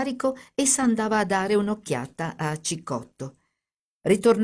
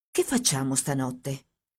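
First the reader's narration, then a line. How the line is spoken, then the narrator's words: Quiet question. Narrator (Italian): chiese sottovoce a Teresa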